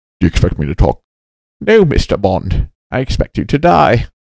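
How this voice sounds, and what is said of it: Sean Connery impression. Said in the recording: “doing a Bane impression... it was my Sean Connery”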